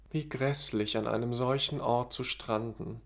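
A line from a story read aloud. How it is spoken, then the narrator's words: Helpless murmur. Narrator (German): murmelte die für gewöhnlich gut aufgelegte Katsuki Yohara hilflos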